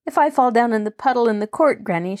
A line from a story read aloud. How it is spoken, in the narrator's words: she threatened merrily